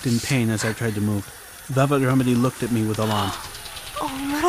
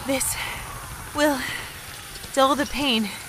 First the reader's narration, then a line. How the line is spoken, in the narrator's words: she panted slowly